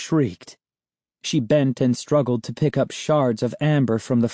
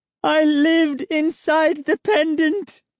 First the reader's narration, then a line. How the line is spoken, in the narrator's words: she cried